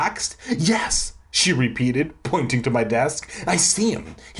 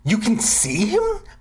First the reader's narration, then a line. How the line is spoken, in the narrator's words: I gasped, amazed